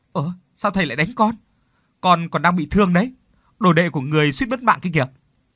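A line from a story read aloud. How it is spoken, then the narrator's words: Loud indignant shout. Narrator (Vietnamese): Phong quay lại hét ầm lên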